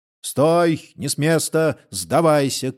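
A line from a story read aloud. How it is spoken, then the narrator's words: Rider shouting. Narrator (Russian): крикнул один из конных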